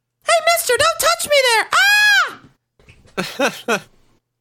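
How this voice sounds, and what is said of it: High-pitched Elmo character voice. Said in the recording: “Can you do an Elmo impression? ... Isn't it, like, real high?”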